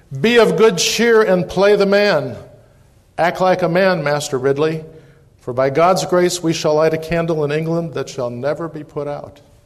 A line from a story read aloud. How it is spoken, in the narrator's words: yelled